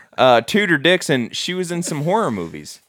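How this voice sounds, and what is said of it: Put-on Southern accent. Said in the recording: “I can't say that not with a Southern accent.”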